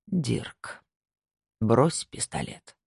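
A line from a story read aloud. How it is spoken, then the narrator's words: Dangerously quiet. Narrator (Russian): сказал Снейдер опасно тихим голосом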